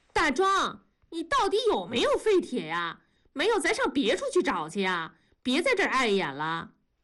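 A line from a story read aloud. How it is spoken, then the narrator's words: Calling out. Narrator (Chinese): 梅梅在那边喊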